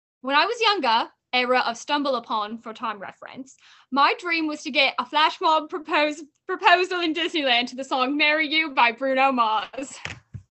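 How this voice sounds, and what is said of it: Cheeky put-on accent. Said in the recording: “I will have to read it in a cheeky accent.”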